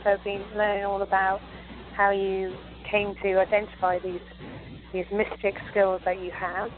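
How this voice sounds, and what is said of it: British English accent. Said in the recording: “you can detect the British accent... Yes”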